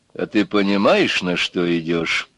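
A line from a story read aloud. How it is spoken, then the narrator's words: Quiet and serious. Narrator (Russian): Негромко и серьезно спросил начальник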